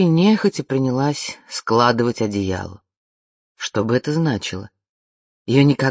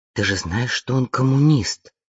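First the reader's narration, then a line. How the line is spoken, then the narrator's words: Angry whisper. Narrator (Russian): сердито прошептала Вианна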